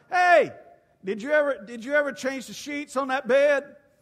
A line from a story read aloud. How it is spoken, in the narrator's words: holler